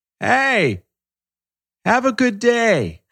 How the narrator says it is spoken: He yells

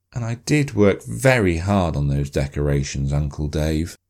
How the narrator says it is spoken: Sophie said sadly

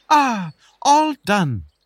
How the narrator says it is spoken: exclaimed

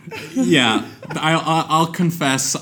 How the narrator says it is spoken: I laughed really hard

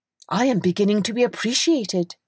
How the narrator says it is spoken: he cried

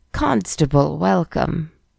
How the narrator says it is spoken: he muttered to himself

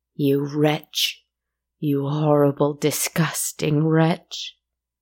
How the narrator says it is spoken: moaned

